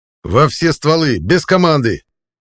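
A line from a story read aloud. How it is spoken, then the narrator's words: Barked command. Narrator (Russian): гаркнул я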